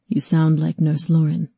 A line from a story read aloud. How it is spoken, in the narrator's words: Erkan chuckled